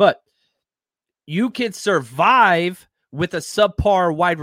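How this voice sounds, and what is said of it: Usual voice. Nothing is said of it.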